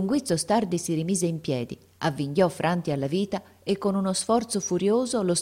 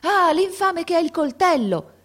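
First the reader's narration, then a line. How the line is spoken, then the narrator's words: Shouting man, running. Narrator (Italian): gridò un uomo accorrendo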